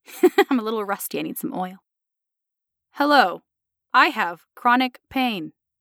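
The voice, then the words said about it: Flat robotic voice. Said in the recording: “maybe I should do like a flat, like neutral tone, like a robotic voice ... I'll try it again as a robot ... The Tin Man.”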